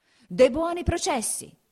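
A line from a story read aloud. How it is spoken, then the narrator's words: Shouting. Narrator (Italian): gridava il podestà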